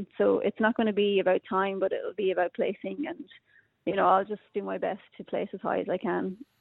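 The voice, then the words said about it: Irish accent. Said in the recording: “you've clearly got an Irish accent”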